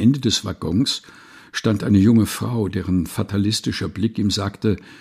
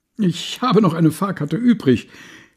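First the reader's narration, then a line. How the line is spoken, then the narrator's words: Man calling joyfully. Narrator (German): rief er freudig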